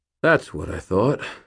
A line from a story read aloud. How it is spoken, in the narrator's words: I sighed